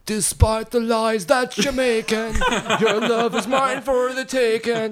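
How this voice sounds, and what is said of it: Sung line in an Irish accent. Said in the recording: “your Skillet impersonation was your best Irish accent”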